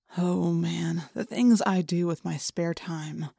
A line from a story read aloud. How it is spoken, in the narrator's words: I muttered